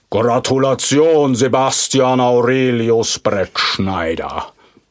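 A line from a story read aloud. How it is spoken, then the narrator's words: Thundering creature. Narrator (German): donnert das Wesen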